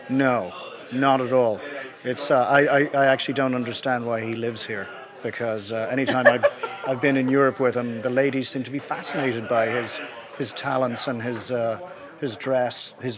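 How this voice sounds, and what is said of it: Irish accent. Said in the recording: “we like the accents, right? ... everyone else in Ireland sounds like you”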